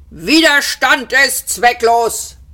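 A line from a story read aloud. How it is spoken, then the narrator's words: Guard roaring. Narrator (German): brüllte ihn der vogonische Wachtposten an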